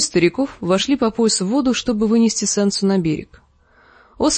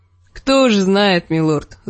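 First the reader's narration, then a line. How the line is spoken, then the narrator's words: Woman laughing. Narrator (Russian): засмеялась женщина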